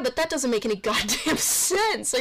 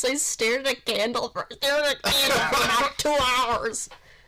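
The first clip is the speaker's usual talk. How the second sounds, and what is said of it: Bad imitation of another person's voice. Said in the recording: “That was a really bad Macho Man impression”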